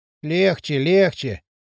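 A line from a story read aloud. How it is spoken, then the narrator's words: Muttering. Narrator (Russian): бормотал Брундуляк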